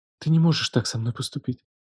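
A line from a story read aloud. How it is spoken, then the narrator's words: Whispered like incantation. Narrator (Russian): шептала она, как заклинание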